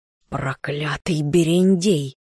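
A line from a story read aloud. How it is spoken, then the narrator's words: Through gritted teeth. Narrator (Russian): Горыныч процедил сквозь зубы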